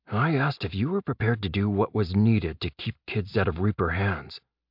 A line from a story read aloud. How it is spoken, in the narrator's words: Jeb whispered back